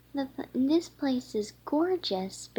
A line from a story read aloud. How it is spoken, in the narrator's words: Berry exclaimed